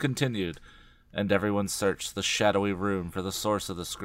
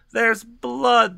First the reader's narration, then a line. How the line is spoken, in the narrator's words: the witch cried